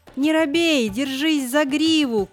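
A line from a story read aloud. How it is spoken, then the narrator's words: Shouting after someone. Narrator (Russian): крикнула та вдогонку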